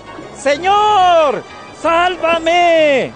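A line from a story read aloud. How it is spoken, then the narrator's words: Frightened desperate shout. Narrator (Spanish): se asustó y, como empezaba a hundirse, gritó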